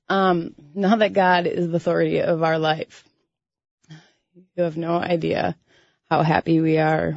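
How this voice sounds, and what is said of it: Emotional, choked-up voice. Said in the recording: “I'm sorry, I'm getting emotional.”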